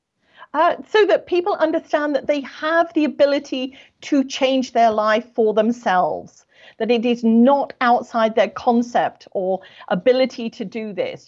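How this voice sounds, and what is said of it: British accent. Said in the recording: “British! ... I'm British, yes ... I love your accent”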